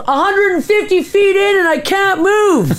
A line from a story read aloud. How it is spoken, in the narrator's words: yelled